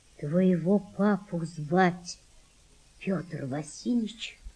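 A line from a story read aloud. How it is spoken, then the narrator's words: Quiet. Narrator (Russian): сказала мать Валентины тихо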